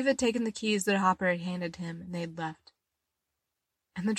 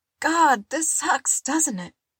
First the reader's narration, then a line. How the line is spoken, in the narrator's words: Robin wheezed